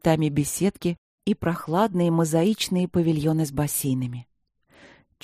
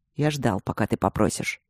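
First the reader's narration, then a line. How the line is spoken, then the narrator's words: Calm agreement. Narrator (Russian): спокойно согласился он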